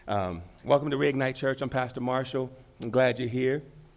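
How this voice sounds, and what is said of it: Deeper voice from a cold. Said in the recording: “having a cold ... a little cold ... my voice gets deeper ... I don't sound like a mouse”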